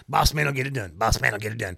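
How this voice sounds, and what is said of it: Impression of SD Jones. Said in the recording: “does an SD Jones impression.”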